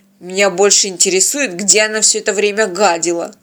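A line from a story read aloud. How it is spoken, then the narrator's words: Disappointed grumble. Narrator (Russian): разочарованно проворчал капитан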